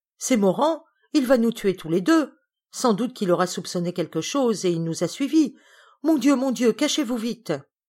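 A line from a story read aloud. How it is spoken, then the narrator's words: Woman exclaiming. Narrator (French): s'écrie-t-elle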